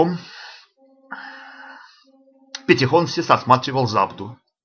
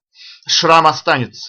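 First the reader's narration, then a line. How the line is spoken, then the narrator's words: Plain. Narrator (Russian): сказал он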